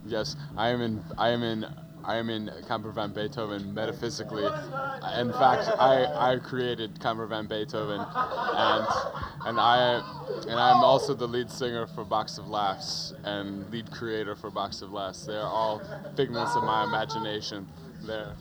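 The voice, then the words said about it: Funny-sounding put-on accent. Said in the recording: “Your accent, you know, sounds a little funny to me.”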